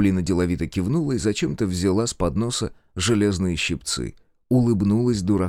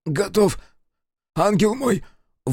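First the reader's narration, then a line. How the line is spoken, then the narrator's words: Breathed out. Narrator (Russian): выдохнул председатель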